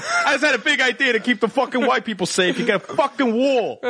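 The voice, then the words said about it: Character with thick New Jersey accent. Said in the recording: “our eighth character that has a thick New Jersey accent and just paraphrases things lewdly”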